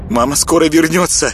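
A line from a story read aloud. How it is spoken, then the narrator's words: Quick. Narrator (Russian): быстро произнесла она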